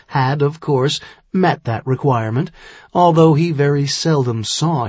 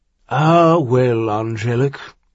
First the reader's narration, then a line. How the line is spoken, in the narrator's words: he sighed now